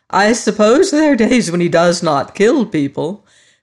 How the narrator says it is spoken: her aunt had exclaimed

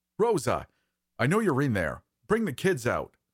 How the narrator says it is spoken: the voice shouted

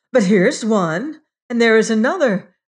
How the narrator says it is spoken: exclaimed

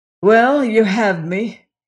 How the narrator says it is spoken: he said hoarsely

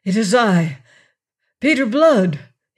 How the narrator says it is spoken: gasped

